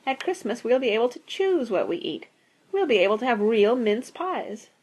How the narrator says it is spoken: sighed Rosie

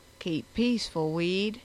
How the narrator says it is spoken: he said in his Norland drawl

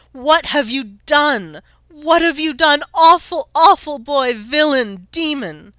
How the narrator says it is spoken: She screeched again, higher and shriller than any owl

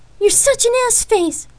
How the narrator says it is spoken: Lark shouted at Rain, as her admission felt like an arrow straight through her heart

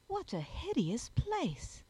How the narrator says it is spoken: exclaimed Juliet

